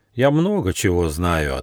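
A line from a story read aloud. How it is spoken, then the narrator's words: Plain. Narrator (Russian): ответил Нюфа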